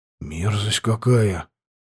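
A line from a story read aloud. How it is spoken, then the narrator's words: Whispered. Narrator (Russian): прошептал я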